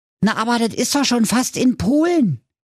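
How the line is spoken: Worried call. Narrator (German): rief Rocker Thilo ernsthaft besorgt

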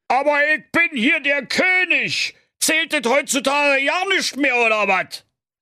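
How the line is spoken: Furious bellowing. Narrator (German): König Klaus Klops der Cholerische, der erneut kurz vor der psychosozialen Kernschmelze stand, brüllte

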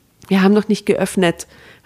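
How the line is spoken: Harsh call. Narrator (German): rief Katrin harsch Richtung Tür

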